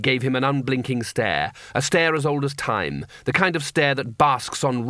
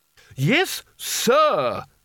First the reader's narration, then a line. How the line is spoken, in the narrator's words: snapped Spelter